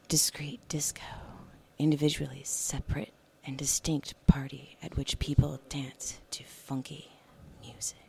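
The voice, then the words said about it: Sensual, seductive reading voice. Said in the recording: “read that in a sensual voice”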